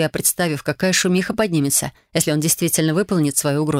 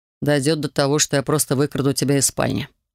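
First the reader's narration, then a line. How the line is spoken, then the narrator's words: Grim promise. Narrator (Russian): мрачно пообещал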